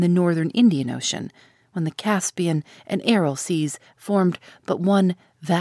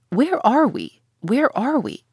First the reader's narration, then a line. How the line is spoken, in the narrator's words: exclaimed the Canadian